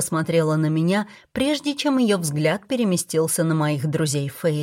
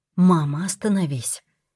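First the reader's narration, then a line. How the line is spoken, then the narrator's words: Gentle. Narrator (Russian): мягко сказала Тесса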